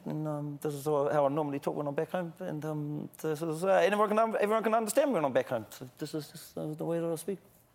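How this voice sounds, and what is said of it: Broad, mumbly New Zealand accent. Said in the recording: “Can you slip into unintelligible Kiwi? ... I can talk into my normal accent ... It's just mumbling. ... New Zealand.”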